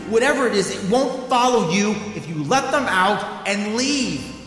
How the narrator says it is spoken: I shouted

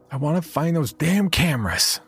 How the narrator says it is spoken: she yelled at me

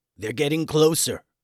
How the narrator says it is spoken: said Professor Grumble with some panic in his voice

